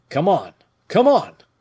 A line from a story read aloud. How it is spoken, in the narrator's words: exclaimed he